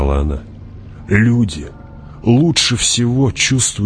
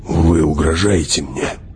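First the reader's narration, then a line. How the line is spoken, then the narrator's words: Near growl. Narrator (Russian): почти прорычал он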